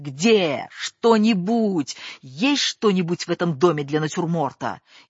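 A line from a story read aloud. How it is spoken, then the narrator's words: Shouting from another room. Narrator (Russian): Стасик уже кричал откуда-то из кухни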